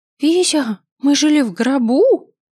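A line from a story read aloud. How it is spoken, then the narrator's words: Squealing. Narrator (Russian): взвизгнула Помело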